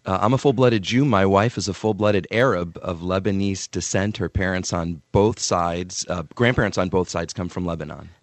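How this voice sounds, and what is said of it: Good radio voice. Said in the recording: “You got a good radio voice, too.”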